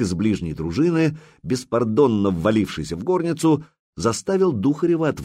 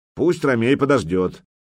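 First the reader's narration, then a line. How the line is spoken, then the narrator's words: Displeased grumble. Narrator (Russian): недовольно проворчал воевода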